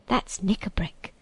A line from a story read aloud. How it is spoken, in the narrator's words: whispered Trumpkin